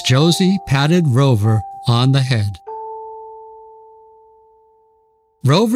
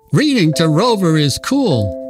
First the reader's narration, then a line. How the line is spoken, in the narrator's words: exclaimed one of the boys